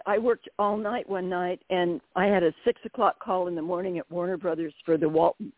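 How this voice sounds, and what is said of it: Slightly raspy voice. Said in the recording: “my voice is a little raspy. I've got some hay fever”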